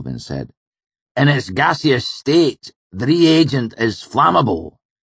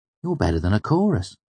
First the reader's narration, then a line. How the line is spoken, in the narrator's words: I said softly, trying to keep a straight face